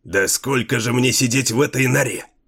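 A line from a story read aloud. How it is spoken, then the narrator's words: Irritable snap. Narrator (Russian): Не выдержав, огрызнулся Джарво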